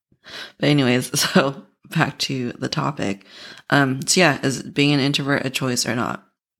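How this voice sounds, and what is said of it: Hoarse voice. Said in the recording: “my voice is so hoarse.”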